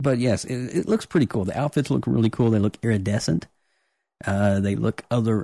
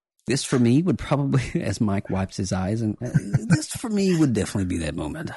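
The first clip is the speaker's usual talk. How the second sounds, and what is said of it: Put-on English accent. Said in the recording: “Why am I talking in an English accent?”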